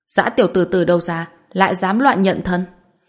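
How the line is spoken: Cold rebuke. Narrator (Vietnamese): Quý Thái Hậu lại không thể nhịn, mở miệng lạnh lùng khiển trách nói

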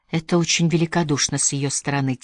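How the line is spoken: Quiet. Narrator (Russian): тихо сказала Мэри

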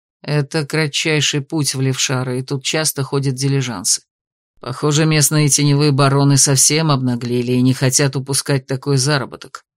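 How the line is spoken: Gloomy explanation. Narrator (Russian): пояснил мрачно

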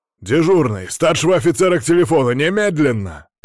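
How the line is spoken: Barking into phone. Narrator (Russian): рявкнул в трубку

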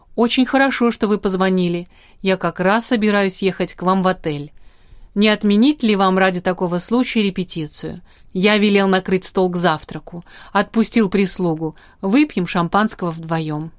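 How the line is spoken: Calm. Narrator (Russian): Шустров спокойно сказал

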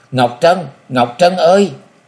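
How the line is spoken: Loud cry. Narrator (Vietnamese): chàng gào to

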